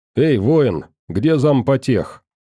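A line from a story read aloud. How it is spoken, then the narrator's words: Very confident question. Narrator (Russian): максимально уверенным голосом спросил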